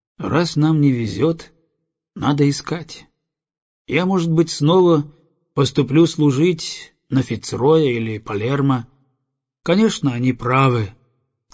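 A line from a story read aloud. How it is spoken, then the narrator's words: Thoughtful. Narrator (Russian): задумчиво продолжал он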